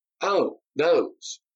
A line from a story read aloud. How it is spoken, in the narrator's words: Darius appeared puzzled for a moment, then exclaimed